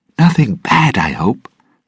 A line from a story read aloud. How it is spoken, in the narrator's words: Ragetti said nervously